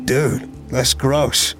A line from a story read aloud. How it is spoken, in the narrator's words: Carter chuckled